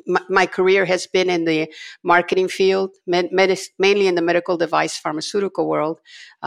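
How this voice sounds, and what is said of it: Raspy, congested voice. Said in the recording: “I normally don't sound like this ... my voice sounds a little raspier”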